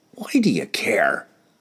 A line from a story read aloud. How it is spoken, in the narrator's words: growled